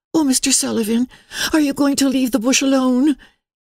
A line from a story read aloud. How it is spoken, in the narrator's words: said Emily, breathlessly